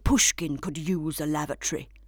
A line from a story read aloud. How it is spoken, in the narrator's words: muttered Clem